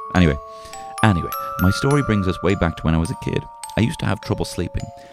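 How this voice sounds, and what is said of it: Irish accent. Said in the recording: “they can't understand your accents. I tell them you're speaking Irish”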